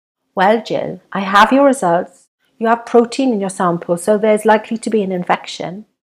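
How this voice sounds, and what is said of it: Soft Welsh accent. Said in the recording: “She has a soft Welsh accent.”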